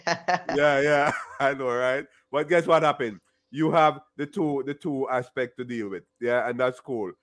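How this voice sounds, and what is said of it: Strong Jamaican accent. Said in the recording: “I have a strong Jamaican accent ... the accent is there. Cannot lose it.”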